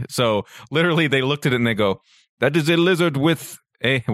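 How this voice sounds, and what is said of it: Mock communist-style accent. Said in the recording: “I don't know why I'm doing a communist accent. I don't know what's doing a communist accent”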